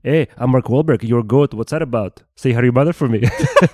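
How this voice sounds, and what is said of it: Imitates another person's voice. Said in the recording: “Andy Samberg impersonates Mark Wahlberg ... that impersonation”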